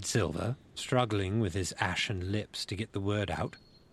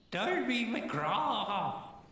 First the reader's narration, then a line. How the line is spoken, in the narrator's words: It wailed